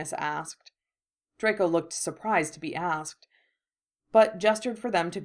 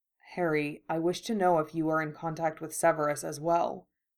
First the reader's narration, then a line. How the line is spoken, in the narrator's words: he said